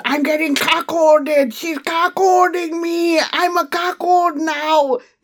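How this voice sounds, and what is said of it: Arnold Schwarzenegger impression, Austrian accent. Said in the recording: “my Arnold impression ... the way he says it with his Austrian accent”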